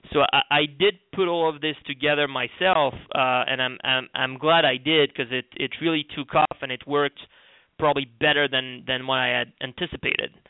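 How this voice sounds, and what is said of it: Slight French accent. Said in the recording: “I have a little bit of the accent, I'm French”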